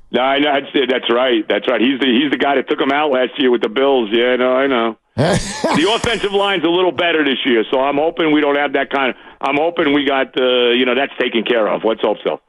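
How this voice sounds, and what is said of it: New York accent. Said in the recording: “the New York accent”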